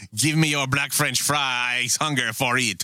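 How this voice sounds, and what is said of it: Terrible put-on French accent. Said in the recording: “do a terrible French accent”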